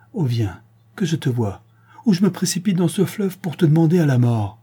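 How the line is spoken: Exclaimed. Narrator (French): s'écria-t-il

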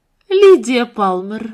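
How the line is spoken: Exclamation. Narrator (Russian): воскликнула Марианна

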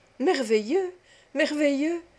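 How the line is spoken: Children exclaiming together. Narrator (French): s'écrièrent tous les enfants

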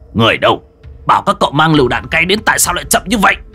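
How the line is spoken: Shouting at subordinates. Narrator (Vietnamese): Hàn Tu quát cấp dưới

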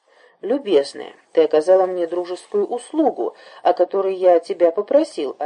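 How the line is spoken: Plain. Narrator (Russian): ответил лягушачий царь

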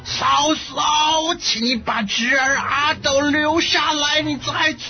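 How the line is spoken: Shouting. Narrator (Chinese): 张飞大喊着

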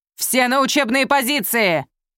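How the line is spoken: Shout. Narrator (Russian): крикнул он

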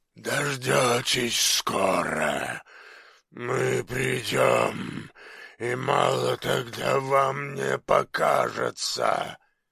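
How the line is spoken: Choking hoarse rasp. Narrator (Russian): Захлебываясь, он прохрипел

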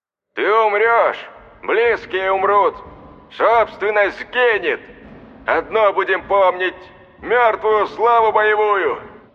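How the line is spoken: Booming commanding voice, loudspeakers. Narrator (Russian): Загремел командным голосом фашист в громкоговорителях

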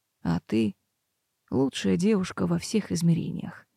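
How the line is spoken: Very soft breathy whisper. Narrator (Russian): тихо-тихо выдохнул он

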